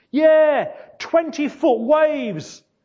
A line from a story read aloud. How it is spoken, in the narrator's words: shouted John over the noise